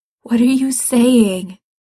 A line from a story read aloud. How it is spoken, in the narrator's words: he asks, his voice shaking